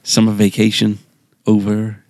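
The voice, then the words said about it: Put-on American accent. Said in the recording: “Is that an American accent I detect?”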